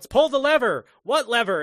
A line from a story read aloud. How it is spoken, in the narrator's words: Benny shouts